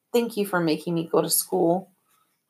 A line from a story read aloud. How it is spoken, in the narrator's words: I said quietly